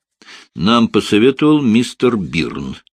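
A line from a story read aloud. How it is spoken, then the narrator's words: Plain. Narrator (Russian): сказала Пэтси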